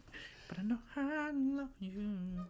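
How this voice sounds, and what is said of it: Flawless impression of a singer's voice. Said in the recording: “that was a flawless impersonation.”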